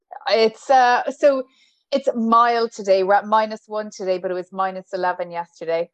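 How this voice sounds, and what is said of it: Irish accent. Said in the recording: “with your accent as an Irish, like uh, you're an Irish lady”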